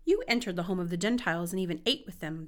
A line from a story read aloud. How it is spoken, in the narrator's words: they said